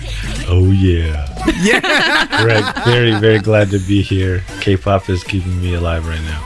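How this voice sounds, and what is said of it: Deep voice. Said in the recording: “our deep voice co-host”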